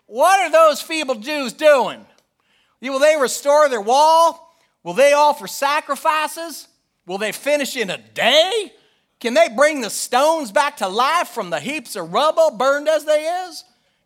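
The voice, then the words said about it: Put-on Kentucky-style accent. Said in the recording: “That accent is ancient Ammonite. ... By way of Kentucky.”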